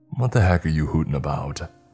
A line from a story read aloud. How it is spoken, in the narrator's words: Sergeant Elon chuckles